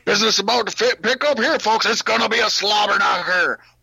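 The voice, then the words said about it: Jim Ross impression. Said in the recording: “a Jim Ross accent”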